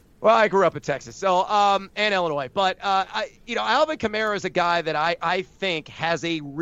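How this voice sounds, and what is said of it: Usual voice. Nothing is said of it.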